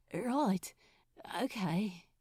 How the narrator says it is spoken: he stammered

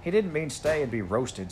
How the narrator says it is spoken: said Robert

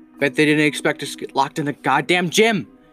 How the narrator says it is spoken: Jared exclaimed loudly, as if he was yelling at the walls

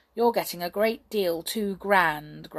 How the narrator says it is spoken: grumbled Jump, who began to wish he was the conjurer instead of Hop, for he was carrying the basket and finding it very heavy

